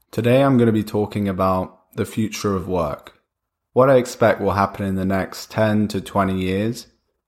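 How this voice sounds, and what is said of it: Voice sounds a bit off, sick. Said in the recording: “I have a bit of a cold, by the way, so sorry if my voice sounds a bit off”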